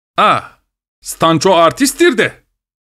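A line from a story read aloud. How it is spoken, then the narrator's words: Shouted. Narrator (Turkish): diye bağırdı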